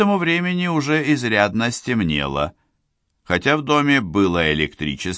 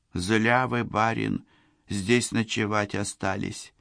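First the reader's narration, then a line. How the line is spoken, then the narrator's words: Barely audible girl. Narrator (Russian): еле слышно проговорила девушка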